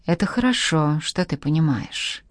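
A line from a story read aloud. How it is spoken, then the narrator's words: Unexpectedly soft. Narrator (Russian): неожиданно мягко сказал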